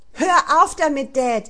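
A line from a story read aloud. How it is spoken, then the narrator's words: Shouting. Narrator (German): schrie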